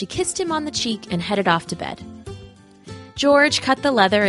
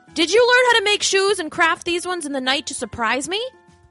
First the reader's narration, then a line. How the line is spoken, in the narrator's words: George called out to his wife